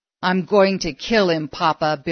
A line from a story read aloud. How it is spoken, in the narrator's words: Billy snarled, quivering with anger